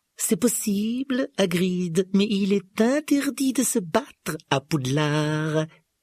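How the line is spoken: Silky, smooth reply. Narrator (French): répliqua Rogue d'un ton doucereux

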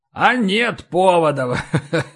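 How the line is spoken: Deep belly laugh. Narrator (Russian): Утробно засмеялся Дари

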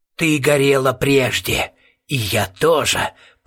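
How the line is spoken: Creaky voice inside head. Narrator (Russian): проскрипел голос у нее в голове

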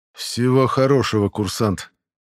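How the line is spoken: Forced, neutral. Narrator (Russian): выдавил он из себя как можно более нейтрально

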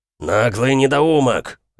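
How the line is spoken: Bark. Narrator (Russian): рявкнул Иэл

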